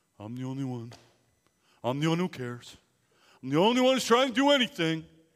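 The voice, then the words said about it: Eeyore cartoon character voice. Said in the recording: “he says it in the Eeyore voice”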